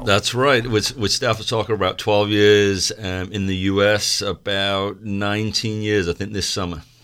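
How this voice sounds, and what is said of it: Faded Manchester English accent. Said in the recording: “Originally from Manchester, England. I'm losing a lot of the accent.”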